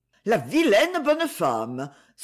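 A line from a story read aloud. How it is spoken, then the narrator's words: Passersby exclaiming. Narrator (French): s'écrient les passants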